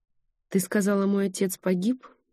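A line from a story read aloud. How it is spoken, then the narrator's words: Sighing. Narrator (Russian): вздохнула Генриетта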